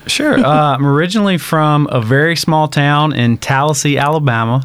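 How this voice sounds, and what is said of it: Slight Southern twang. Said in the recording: “I'm hearing a little twang”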